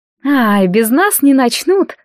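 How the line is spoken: Ringing laugh. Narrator (Russian): звонко рассмеялась Леовара

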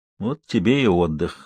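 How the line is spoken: Sigh. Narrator (Russian): вздохнула Самсуд

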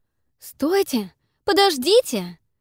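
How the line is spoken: Sudden cry. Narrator (Russian): скрикнула

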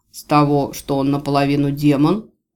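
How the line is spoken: Snort. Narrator (Russian): Марий хмыкнул

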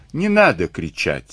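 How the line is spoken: Calm. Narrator (Russian): сказал он спокойно

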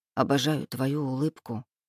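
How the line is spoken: Soft murmur. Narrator (Russian): пробормотал Лука

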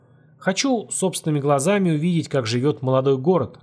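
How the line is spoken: Plain. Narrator (Russian): ответил Олег

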